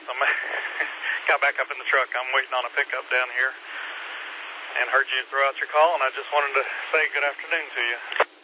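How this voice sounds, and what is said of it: Out of breath. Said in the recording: “a little out of breath.”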